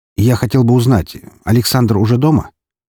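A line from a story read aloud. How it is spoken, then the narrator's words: Casual everyday tone. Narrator (Russian): Этот вопрос, прозвучавший практически будничным тоном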